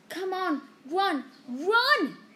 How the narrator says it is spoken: he yelled at Hermione

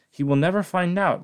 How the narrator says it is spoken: laughed the Cat in the Hat

